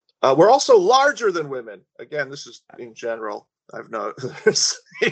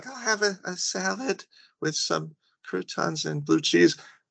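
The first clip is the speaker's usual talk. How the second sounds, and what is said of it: Imitates a woman ordering dinner. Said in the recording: “my impression of a woman and a man going to dinner”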